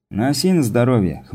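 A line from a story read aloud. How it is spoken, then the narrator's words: Wry snort. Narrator (Russian): хмыкнул Такер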